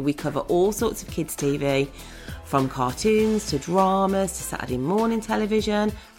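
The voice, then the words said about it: Strong Brummie accent. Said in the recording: “this episode is very brummy. It's very brummy. I didn't realise quite how brummy I sounded ... the brummy accent”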